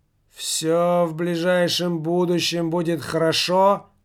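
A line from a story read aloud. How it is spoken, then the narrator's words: Mournful, strange voice. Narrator (Russian): Заунывно, словно и не своим голосом даже, произнес Михалыч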